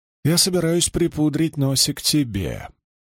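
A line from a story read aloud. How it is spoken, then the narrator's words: Plain. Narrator (Russian): ответила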